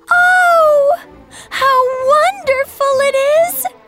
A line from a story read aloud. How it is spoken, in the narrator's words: She cried out